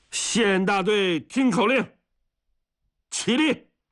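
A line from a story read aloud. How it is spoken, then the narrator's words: Roaring shout. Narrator (Chinese): 许承哲吼了一嗓子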